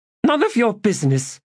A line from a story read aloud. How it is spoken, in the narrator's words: she snapped